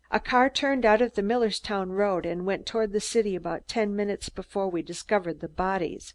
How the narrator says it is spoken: Pickering replied evenly

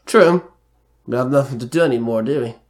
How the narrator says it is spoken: Merrick sighed

